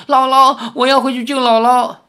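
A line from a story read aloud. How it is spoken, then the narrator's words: Crying. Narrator (Chinese): 赵灵儿哭着说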